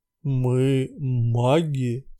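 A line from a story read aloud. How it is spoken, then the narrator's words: Solemn answer. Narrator (Russian): торжественно ответил кавказец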